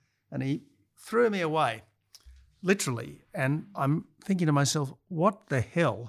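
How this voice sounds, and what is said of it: Usual voice. Nothing is said of it.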